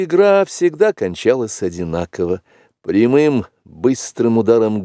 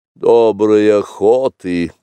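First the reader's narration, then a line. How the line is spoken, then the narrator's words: Grumbled. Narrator (Russian): проворчал, наконец, Каа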